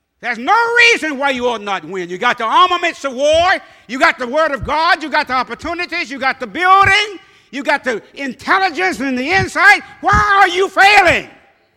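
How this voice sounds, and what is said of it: Yelling preacher. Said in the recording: “That's what I'm yelling about.”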